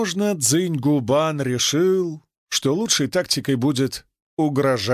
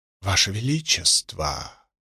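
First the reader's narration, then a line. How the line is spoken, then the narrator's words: Whispered. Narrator (Russian): прошептала она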